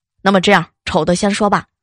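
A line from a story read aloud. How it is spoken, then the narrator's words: Flat, indifferent. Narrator (Chinese): 大妈淡淡了一句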